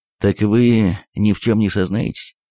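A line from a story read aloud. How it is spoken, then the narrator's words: Dejected question. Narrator (Russian): спросил он упавшим голосом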